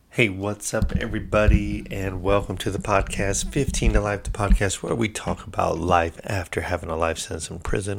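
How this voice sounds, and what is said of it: Sick, rough voice. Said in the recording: “Excuse my voice, my tone, my coughing. I'm a little sick right now”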